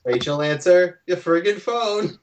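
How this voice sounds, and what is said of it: Odd put-on voice. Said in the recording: “I have this weird voice.”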